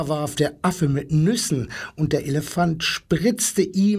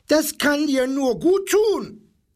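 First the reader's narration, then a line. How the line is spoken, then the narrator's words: Parrot's screech. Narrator (German): kreischte der Papagei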